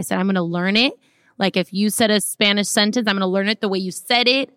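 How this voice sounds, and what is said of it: Miami accent. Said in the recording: “you don't even sound like a white girl, though, from Minnesota. You have, like, a Miami accent”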